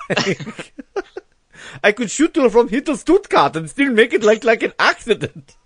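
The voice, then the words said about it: Over-the-top German accent. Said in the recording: “Over-the-top German henchman.”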